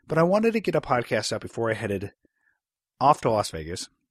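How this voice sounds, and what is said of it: Voice sounds congested from cold. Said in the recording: “As you can tell by my voice, I have a little bit of a cold, a little bit of a cough”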